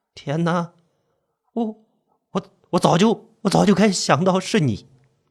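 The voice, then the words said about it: Trembling, stammering frightened voice. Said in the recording (Chinese): “用颤抖的声音说”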